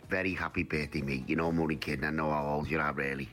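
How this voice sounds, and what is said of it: Liverpool accent. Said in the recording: “you can't miss ... voice ... I love the Liverpool accent”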